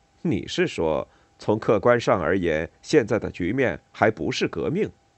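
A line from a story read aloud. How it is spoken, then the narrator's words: Mocking, defensive tone. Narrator (Chinese): 他的这种语气，这意味着他想通过取笑我来捍卫自己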